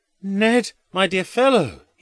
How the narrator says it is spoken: he cries in a loud voice

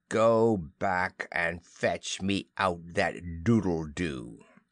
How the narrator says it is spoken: he said in his most steely voice

